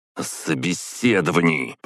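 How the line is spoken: Growl. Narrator (Russian): прорычал

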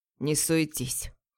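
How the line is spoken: Low growl. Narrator (Russian): Рычит он негромко

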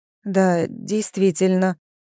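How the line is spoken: Confused drawl. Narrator (Russian): растерянно протянула Дуда

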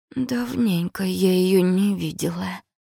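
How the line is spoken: Suddenly hoarse voice. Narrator (Russian): внезапно осипшим голосом произнесла Сонька

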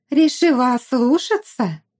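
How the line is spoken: Shrill squeal. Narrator (Russian): Вновь взвизгнула пышнотелая Жустина

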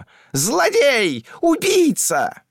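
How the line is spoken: Desperate shouting. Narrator (Russian): кричал Пуц, теряя под ногами почву

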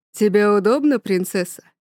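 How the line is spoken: Low warm voice. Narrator (Russian): спрашивает он низким, но при этом теплым голосом

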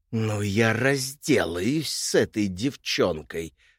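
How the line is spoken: Queen hissing. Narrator (Russian): прошипела королева

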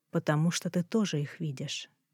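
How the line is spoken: Quiet reply. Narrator (Russian): тихо ответил Эндрю

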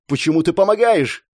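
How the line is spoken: Shout while running. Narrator (Russian): крикнул я, бегущий позади девушки

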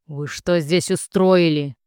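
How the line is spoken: Male voice growling. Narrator (Russian): еще один мужской голос прорычал

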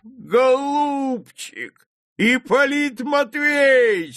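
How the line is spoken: Shouting. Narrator (Russian): закричал он

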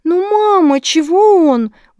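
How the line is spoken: Offended wail. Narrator (Russian): взвыла обиженная Милана

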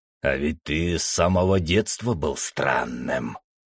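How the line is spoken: Gloating hiss. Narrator (Russian): со злорадством прошипел небесный

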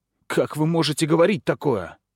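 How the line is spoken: Agitated girl shouting. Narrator (Russian): взволнованно девочка закричала

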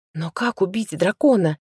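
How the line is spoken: Whisper. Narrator (Russian): прошептала я

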